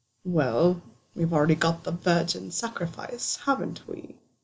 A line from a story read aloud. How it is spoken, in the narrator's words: Severus chuckled, delighted